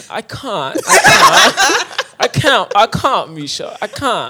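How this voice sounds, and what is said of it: Attempted UK accent drifting Jamaican. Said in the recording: “I would try to put on a UK accent ... That was pretty good ... then you went Jamaican”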